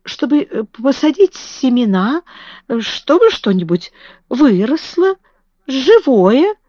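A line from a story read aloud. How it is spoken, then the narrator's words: Stammering. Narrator (Russian): запинаясь, сказала Мэри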